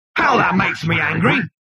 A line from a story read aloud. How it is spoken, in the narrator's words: bellowed the machine